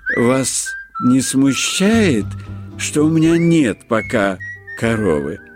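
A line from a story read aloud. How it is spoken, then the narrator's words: Uncertain quick question. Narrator (Russian): неуверенно сразу спросил Маськин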